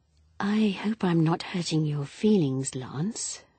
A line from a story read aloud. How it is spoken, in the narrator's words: Pat murmured